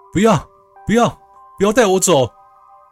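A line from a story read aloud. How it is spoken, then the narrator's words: Dazed panicked shouting. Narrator (Chinese): 阿伟刚醒来的时候，神情恍惚，随即则是一阵惊乱，嘴里不住的大喊说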